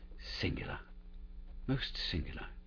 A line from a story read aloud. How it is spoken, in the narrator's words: he murmured